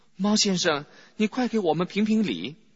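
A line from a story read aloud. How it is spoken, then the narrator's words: Breathless, hurried. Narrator (Chinese): 小荣家跑得气喘吁吁，他连忙对猫说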